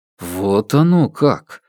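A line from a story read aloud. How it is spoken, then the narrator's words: Puzzled drawl. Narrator (Russian): Протянул я озадаченно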